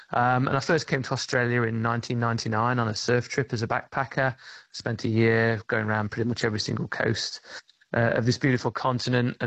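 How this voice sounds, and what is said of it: Non-Australian accent. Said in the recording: “Despite the accent”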